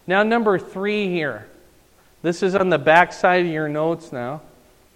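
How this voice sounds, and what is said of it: Wisconsin-sounding pronunciation of a word. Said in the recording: “Why do I say notes like I'm from Wisconsin? ... That's a dialect thing.”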